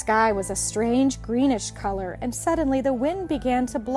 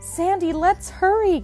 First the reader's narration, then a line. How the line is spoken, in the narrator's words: gasped Betsy